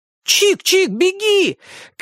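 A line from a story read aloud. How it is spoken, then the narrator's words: Children shouting. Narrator (Russian): кричали ему ребята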